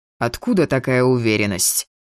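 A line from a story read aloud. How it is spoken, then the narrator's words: Snorting. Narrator (Russian): фыркнул Шейн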